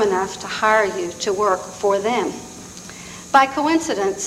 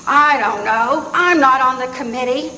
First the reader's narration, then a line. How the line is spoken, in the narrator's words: bellowed above the din of the cocktail chatter